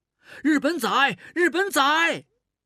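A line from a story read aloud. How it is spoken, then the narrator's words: Loud jeering. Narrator (Chinese): 有人大声起哄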